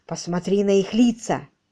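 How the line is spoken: Young woman whispering. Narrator (Russian): прошептала все та же барышня

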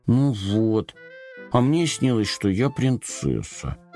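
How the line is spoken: Grumbling. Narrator (Russian): Пробурчал Компот

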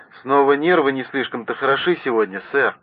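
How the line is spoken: Snapping retort. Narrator (Russian): Резерфорд огрызнулся

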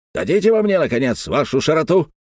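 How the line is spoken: Indignant shout. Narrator (Russian): закричал дядюшка Антифер в порыве негодования

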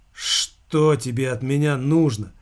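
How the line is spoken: Weary speech. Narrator (Russian): устало проговорил Замелькацкий

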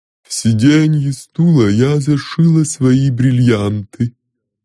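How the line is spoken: Wooden, indifferent voice. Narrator (Russian): Клавдия Ивановна деревянным, равнодушным голосом сказала

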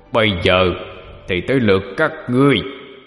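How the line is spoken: Demon roaring. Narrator (Vietnamese): Con quỷ gầm lên

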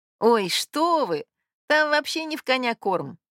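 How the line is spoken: Laughing. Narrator (Russian): медсестра засмеялась

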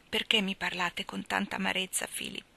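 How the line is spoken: Plain. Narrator (Italian): disse Maggie

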